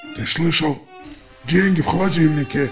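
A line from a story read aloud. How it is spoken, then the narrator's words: Wheezed. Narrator (Russian): прохрипел волк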